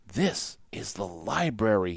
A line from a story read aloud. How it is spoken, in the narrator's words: said in a hushed voice